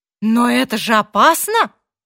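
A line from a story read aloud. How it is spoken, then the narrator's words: Exclamation. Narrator (Russian): воскликнул Мартин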